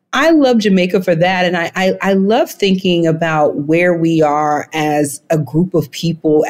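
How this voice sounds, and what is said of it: Slight Southern Alabama twang. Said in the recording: “if you hear a little bit of twang ... little twang there, that's where that comes from, um, from Alabama”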